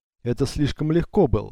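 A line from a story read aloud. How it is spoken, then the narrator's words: Laughing. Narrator (Russian): смеялась Лара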